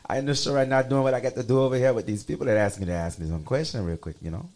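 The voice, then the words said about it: Gullah accent, Cajun and West Indian notes. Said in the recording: “I give you a little taste of what the accent sounds like ... if my accent slips out, they think I'm Cajun or whatever, but it's like kind of Cajun with more notes from like West Indies”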